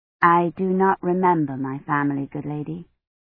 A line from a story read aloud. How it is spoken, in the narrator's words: Kivrin said, trying to keep her voice meek